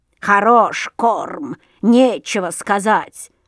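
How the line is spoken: Grumble. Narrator (Russian): заворчала ворона

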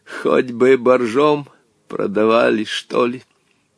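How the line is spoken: Wooden creaking voice. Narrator (Russian): деревянным голосом проскрипел

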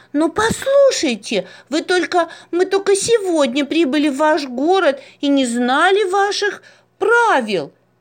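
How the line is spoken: Exclaiming. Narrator (Russian): воскликнула Маруся

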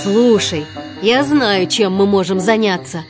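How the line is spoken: Plain. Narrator (Russian): сказал мэтр

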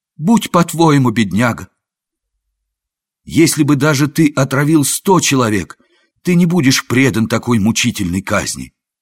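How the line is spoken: Exclaiming after astonishment. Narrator (Russian): Опомнившись от изумления, он воскликнул

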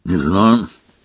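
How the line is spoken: Grumbled. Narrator (Russian): буркнул Рон

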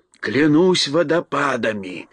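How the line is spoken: Whispering together. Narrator (Russian): прошептал моряк вместе с Элли

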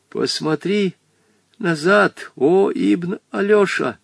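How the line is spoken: Frightened old man's whisper. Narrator (Russian): Побледневший, с испуганно приподнятыми бровями, старик шепнул Вольке

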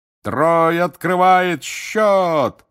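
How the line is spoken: Roaring. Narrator (Russian): взревел Бэгман

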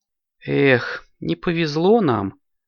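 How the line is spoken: Sigh. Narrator (Russian): вздохнула Снежка

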